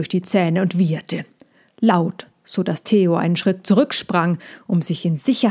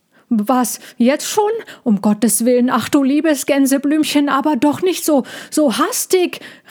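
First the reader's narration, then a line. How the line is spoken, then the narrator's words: Calling out. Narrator (German): rief Ludwig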